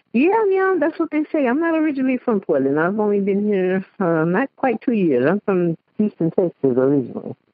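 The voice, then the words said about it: Slight Cajun-tinged Southern accent. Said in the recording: “your accent's a little Cajun-y to me.”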